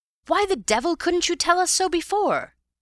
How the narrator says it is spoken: he cried

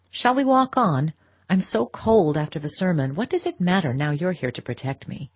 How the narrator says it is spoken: rejoined in a lighter tone

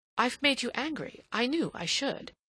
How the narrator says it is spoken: she exclaimed

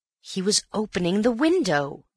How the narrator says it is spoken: cried Antony

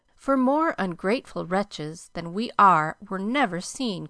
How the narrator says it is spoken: cried Joe, taking a remorseful satisfaction

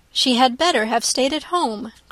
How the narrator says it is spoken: cried Elizabeth

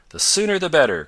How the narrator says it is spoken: cried, unusually eager

